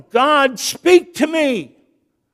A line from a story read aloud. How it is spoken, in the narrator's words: the man yelled